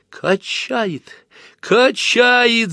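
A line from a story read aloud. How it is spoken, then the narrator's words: Shout. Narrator (Russian): закричала Люся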